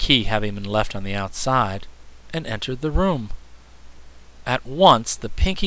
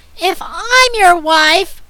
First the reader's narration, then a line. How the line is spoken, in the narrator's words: screamed Azure